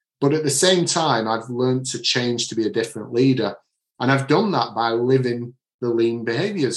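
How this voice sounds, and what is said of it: Manchester northern English accent. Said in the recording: “I'm from the Manchester area. I've got my own accent”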